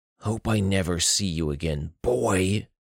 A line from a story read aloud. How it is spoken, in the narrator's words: Anton growled